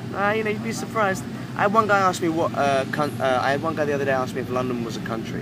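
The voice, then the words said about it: Accent sometimes mistaken for Australian. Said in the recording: “Do you ever get people who try to mimic your accent ... people try to mimic my accent, or they ask me if I'm Australian.”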